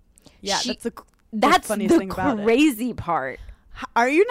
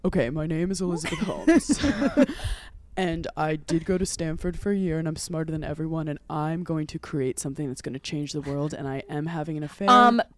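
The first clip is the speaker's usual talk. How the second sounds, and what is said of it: Imitates another person's voice. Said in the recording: “my Elizabeth Holmes impression ... that was spot on ... her voice is fake”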